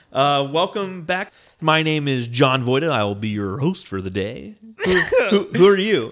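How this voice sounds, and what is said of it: Exaggerated radio announcer voice. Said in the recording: “This is my radio voice.”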